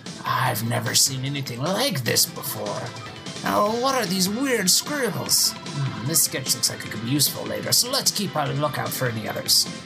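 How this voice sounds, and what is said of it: Strained, unpleasant character voice. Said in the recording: “my throat is hurting so bad from doing that voice ... the most, like, difficult, unpleasant voice to do for the character”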